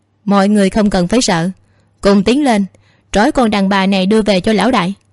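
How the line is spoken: Leader's loud shout. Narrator (Vietnamese): tên cầm đầu gật gật đầu, hướng về phía bốn người còn lại hét lớn

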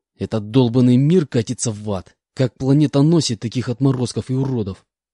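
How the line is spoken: Angry hiss. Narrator (Russian): Злобно прошипел я

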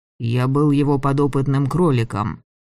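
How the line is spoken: Gloomy. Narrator (Russian): сказал мрачно

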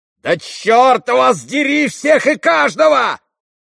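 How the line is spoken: Sudden yell. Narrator (Russian): завопил он вдруг

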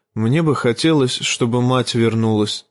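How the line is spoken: Pitiful voice. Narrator (Russian): сказал он жалким голосом

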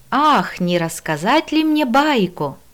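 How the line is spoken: Joyful singsong. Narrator (Russian): радостно пропела

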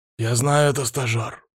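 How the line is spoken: Growled. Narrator (Russian): прорычал Палыч

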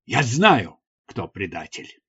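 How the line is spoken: Exclamation after reflection. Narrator (Russian): После некоторого размышления он воскликнул

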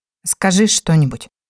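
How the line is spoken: Shaky, agitated plea. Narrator (Russian): дрогнувшим голосом попросил непривычно взволнованный Димарий

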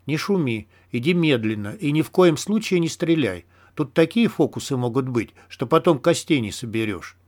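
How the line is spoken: Quiet voice. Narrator (Russian): Филин сказал тихим голосом

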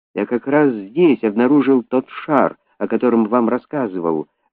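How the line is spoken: Exclamation. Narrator (Russian): воскликнул

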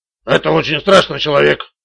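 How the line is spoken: Muttering. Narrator (Russian): пробормотал Магуайр

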